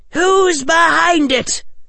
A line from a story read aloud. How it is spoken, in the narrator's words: shouted Amelia to the broomstick